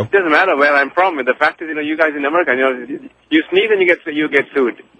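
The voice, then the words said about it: Hard-to-place foreign accent. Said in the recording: “I can't understand his accent. ... What accent is that”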